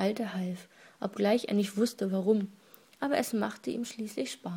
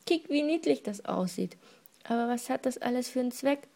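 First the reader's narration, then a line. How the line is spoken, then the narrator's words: Laughing. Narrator (German): lachte und sagte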